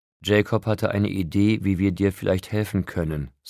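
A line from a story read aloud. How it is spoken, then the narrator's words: Plain. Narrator (German): sagte Carlyle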